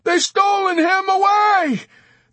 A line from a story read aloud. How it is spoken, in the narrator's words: Dunbar shouted back